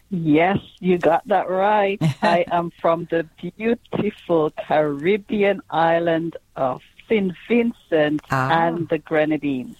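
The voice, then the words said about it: Caribbean accent. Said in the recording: “you have a beautiful Caribbean accent.”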